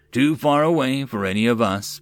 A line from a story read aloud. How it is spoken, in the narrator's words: Boss replied